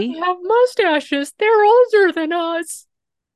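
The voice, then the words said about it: Imitation of a prepubescent boy. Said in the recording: “That was my attempt at imitating a prepubescent boy. ... You did good. You did great.”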